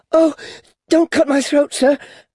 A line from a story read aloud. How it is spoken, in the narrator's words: pleaded in terror